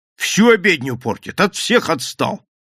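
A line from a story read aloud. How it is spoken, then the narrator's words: Agitated, excited. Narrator (Russian): добавил он все тем же взвинченным голосом, не пробуя справиться со своим возбуждением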